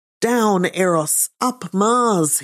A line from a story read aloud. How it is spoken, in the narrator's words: he shouted